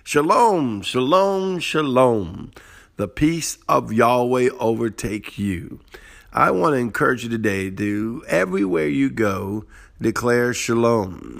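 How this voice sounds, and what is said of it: Cajun accent. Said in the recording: “my Cajun broken accent”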